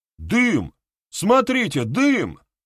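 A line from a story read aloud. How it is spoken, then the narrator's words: Shout. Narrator (Russian): крикнул кто-то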